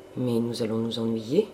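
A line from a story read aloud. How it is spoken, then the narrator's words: Murmured. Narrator (French): murmura Serge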